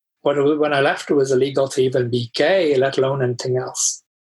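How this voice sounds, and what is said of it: Slightly muddled mixed accent. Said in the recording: “which is why my accent's a little muddled”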